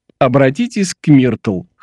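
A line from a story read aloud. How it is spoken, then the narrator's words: With a chuckle. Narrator (Russian): хохотнув, сказал Том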